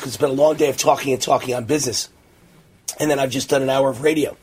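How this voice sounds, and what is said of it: Strained, tired voice going hoarse. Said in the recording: “I'm losing my voice”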